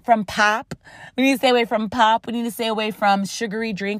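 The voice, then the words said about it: Rochester accent. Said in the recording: “my Rochester accent is coming out”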